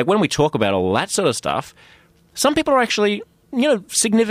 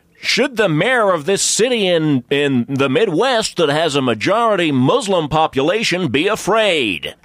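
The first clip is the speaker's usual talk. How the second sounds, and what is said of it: Put-on American news anchor accent. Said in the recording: “How come you can do that so good ... that was a total American accent.”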